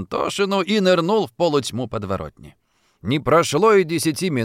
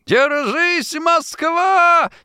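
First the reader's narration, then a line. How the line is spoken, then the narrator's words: Shouted. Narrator (Russian): снова крикнул он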